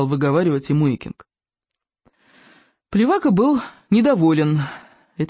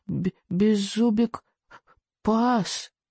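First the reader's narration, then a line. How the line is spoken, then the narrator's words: Barely audible. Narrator (Russian): чуть слышно произнес он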